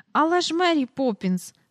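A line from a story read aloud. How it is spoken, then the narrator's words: Cry. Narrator (Ukrainian): скрикнула Джейн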